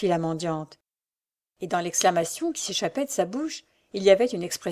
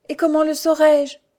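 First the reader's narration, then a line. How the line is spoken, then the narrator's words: Sighed. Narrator (French): soupira Louise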